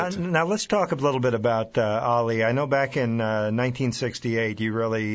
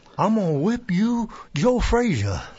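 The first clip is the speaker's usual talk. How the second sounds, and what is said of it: Imitates another person's voice. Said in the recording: “you are allowed to do a Ali impersonation at this point ... That was really good.”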